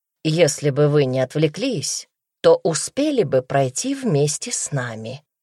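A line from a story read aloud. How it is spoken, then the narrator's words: Calm. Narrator (Russian): спокойно добавил Даня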